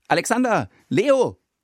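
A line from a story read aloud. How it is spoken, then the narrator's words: Calling out to two. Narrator (German): ruft er uns beiden zu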